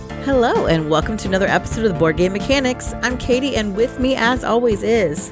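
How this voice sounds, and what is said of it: Hoarse, lower-pitched sick voice. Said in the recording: “my voice is much lower than usual. I got the smelly cat sound to it ... It does a little bit, actually.”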